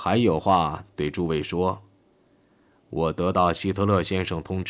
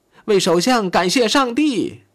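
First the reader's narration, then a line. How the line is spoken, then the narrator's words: Hysterical crowd shouting. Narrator (Chinese): 全场便空前歇斯底里地喊了起来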